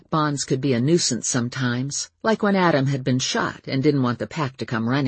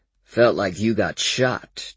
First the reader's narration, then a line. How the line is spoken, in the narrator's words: Daryl said dryly